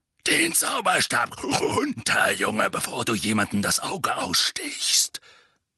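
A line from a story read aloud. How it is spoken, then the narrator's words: Dark growling voice. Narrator (German): sagte eine dunkle, knurrende Stimme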